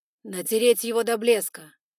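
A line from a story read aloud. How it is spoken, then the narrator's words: Growl. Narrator (Russian): прорычал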